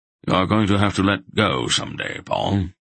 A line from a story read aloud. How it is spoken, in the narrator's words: Belgareth said gravely